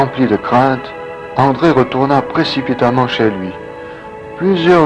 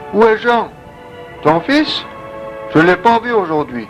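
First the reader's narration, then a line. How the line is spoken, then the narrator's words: Shouting from afar. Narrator (French): André cria de loin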